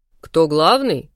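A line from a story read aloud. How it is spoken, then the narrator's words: Surprised snort. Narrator (Russian): Я хмыкнула, удивившись уже сама себе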